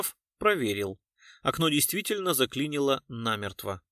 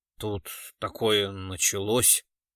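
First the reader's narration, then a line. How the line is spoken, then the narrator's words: Dejected voice. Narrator (Russian): упавшим голосом произнес он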